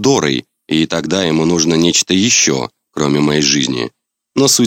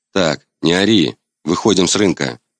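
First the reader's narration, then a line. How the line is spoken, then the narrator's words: Calm. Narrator (Russian): спокойно говорю я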